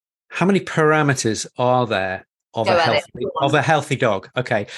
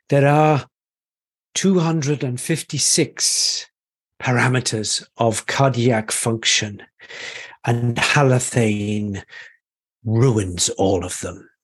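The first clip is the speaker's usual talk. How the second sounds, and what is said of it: Deliberately bad Welsh accent. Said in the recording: “he was Welsh, and this is a really bad Welsh accent”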